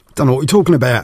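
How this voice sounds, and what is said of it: Put-on London accent. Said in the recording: “a bit of a London twang ... possibly not quite in that accent”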